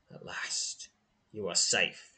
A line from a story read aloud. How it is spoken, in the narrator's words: he mutters